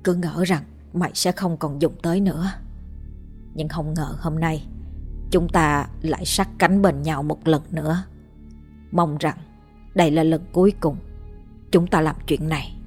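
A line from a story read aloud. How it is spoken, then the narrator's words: Muttering. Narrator (Vietnamese): Bác miệng lẩm bẩm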